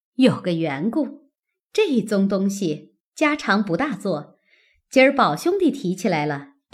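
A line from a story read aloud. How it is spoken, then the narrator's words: Laughing. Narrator (Chinese): 凤姐儿笑道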